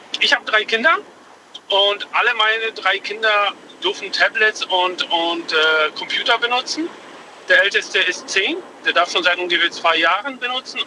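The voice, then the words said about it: Foreign accent, sounds English-speaking. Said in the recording (German): “ich hatte gerade kurz Angst, dass du auf Englisch mit mir reden möchtest ... Das Ist nur mein Akzent.”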